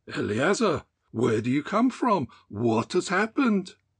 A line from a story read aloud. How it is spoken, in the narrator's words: exclaimed